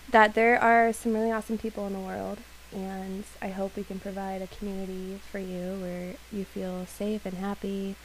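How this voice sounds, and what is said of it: Hoarse, fading voice. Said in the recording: “lose my voice”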